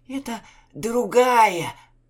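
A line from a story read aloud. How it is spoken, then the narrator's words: Hoarse, secretly hopeful. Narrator (Russian): затаённой надеждой просипел капитан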